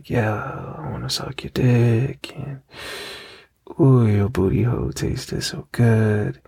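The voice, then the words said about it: Whispering. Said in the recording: “I'm gonna whisper all kind of bullshit in your ear ... I'm gonna whisper that kind of shit”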